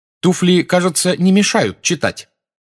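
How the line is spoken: Irritated question. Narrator (Russian): раздраженно спросила блондинка

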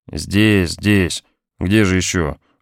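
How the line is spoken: Tired voice. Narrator (Russian): ответила наконец усталым голосом

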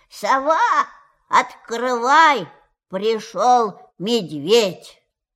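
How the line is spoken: Very loud shout. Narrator (Russian): крикнул очень громким голосом

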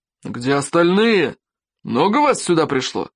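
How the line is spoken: Barking. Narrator (Russian): Рявкнул Норберт Сумасброд

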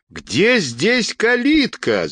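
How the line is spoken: Shout. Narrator (Russian): закричала Анна Петровна, сжимая кулаки

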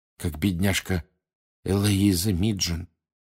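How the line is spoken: Quiet. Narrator (Russian): тихо сказала Ханна Эбботт из Пуффендуя

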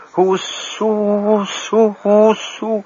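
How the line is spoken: Stifled squeak. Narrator (Russian): она придавленно запищала, но ей, казалось, взвизгнула на весь белый свет

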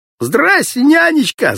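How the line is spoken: Yelling. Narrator (Russian): заорал Володька

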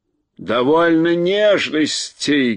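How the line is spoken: Rough shout. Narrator (Russian): грубо закричал Урфин-Джуз

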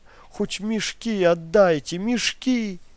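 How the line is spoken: Shout broken by sobs. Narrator (Russian): И рыдания оборвали крик

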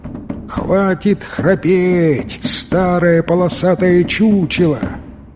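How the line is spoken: Angry growl. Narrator (Russian): Тигр гневно зарычал

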